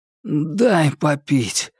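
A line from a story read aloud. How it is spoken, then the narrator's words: Hoarse grumble. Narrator (Russian): хрипло буркнул он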